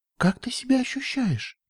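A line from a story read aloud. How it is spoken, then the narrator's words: Quiet question. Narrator (Russian): тихо спросила Флетлайт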